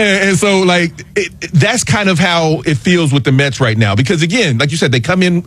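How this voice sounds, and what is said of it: Usual voice. Nothing is said of it.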